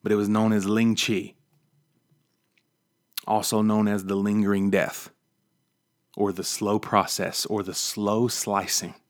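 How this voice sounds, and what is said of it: West Virginia accent. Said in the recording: “my West Virginia dialect”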